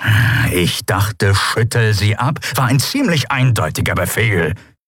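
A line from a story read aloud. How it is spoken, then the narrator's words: Growl. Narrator (German): knurrte Chasu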